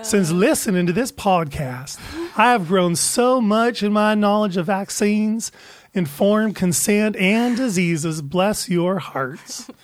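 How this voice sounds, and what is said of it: Bad put-on Southern accent. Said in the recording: “The accent was not. ... Oh, my God, that was so bad. ... I thought I was going to do the southern accent.”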